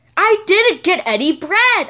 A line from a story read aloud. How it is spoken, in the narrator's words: I said, raising my voice high